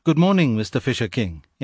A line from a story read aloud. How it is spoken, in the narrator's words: in an easy tone